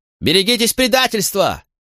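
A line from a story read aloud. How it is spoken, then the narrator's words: Shouted. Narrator (Russian): закричал он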